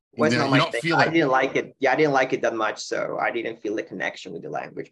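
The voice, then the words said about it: American-sounding accent in English. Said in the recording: “It's very American. You've got an American twang into your accent ... you don't have the Spanish twang, you have an American twang”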